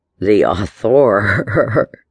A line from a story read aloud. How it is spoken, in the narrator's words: laughed